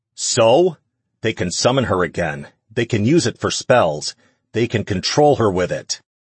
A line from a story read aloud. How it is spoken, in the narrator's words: Ash shouted in his face